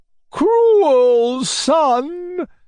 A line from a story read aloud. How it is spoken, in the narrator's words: Madame la Générale would shriek as she came to